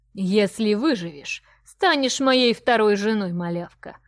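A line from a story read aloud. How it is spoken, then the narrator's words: Dragon's gleeful guffaw. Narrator (Russian): Захохотал дракон, от удовольствия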